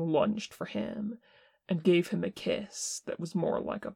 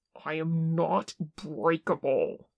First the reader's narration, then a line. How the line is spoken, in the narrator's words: he snarled